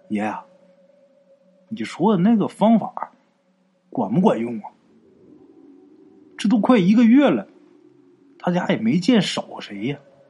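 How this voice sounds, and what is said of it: Quiet, hushed voice. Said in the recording (Chinese): “小声就说”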